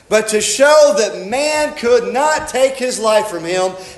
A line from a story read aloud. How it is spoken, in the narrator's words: He cried with a loud voice